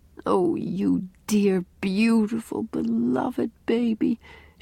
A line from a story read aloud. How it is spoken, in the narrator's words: she mumbled